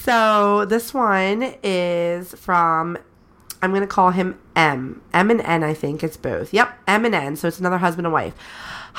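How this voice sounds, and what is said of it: Slightly breathless sick voice. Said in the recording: “I probably sound a little breathless right now, but I promise it's because I'm sick.”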